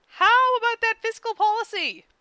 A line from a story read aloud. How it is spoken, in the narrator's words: Ed asked desperately